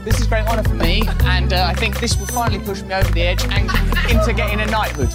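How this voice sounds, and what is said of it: British accent. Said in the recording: “his distinguishable British accent”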